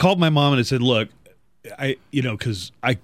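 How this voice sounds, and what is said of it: Usual voice. Nothing is said of it.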